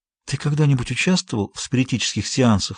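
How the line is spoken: Plain. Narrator (Russian): спросила она

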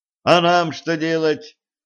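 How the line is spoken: Shout after someone. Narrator (Russian): крикнул им вслед лейтенант

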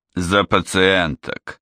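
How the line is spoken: Dry clarification. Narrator (Russian): сухо уточнил он

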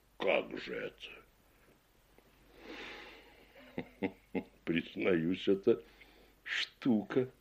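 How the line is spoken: Laughing. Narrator (Russian): сказал полковник, смеясь

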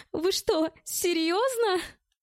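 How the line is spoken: Laughing question. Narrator (Russian): рассмеялась девушка с красивой грудью

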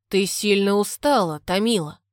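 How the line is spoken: Very cold tone. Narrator (Russian): Прозвучал то ли вопрос, то ли утверждение, произнесенный очень холодным тоном

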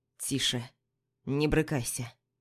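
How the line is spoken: Quiet reply, lion. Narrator (Russian): Тихо отзывается лев

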